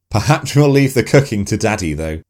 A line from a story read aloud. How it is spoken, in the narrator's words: laughed Uncle Dave